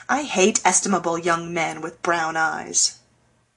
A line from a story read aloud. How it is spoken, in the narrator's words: Joe muttering to herself